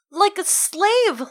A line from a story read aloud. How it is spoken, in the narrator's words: Lyra said hotly